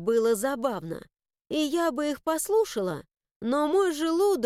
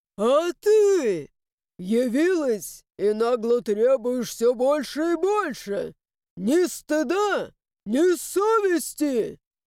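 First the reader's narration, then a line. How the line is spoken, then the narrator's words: Loud wailing lament, two voices. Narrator (Russian): Его вопли подхватил второй, и теперь они оба громко сокрушались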